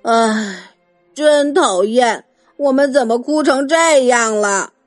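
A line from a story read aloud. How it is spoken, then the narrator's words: Sighing. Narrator (Chinese): 马尔姆叹着气说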